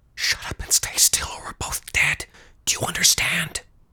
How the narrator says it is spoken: he hissed again

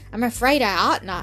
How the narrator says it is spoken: said

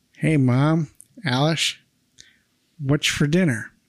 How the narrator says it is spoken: says in a Humphrey Bogart voice

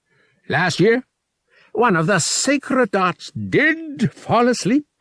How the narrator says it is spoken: Veritil said, booming with his species's version of laughter

